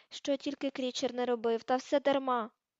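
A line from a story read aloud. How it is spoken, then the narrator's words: Moaning. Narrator (Ukrainian): простогнав ельф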